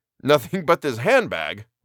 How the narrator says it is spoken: laughed the other, thinking he was joking

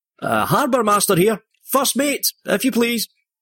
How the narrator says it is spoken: Smith called out

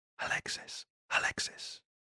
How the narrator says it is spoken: he could faintly hear

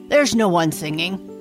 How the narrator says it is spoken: he answered gruffly

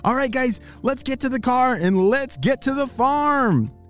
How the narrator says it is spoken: he shouted

